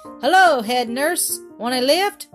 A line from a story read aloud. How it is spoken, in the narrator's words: called out